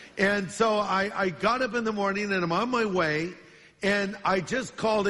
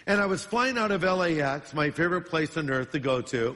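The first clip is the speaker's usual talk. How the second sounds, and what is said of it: Sarcastic tone. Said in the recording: “that was sarcastic”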